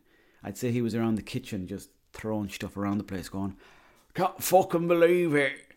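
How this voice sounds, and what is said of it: Poor put-on Scottish accent. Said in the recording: “That's a shite accent... I was trying to do the Scottish accent”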